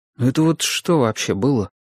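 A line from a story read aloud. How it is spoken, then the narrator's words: Quiet question. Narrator (Russian): тихонько спросил я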